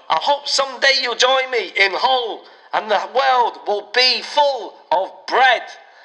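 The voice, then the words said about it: Imperfect put-on Hull accent. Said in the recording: “I'm imagining my accent isn't quite right. ... if I'm from Hull”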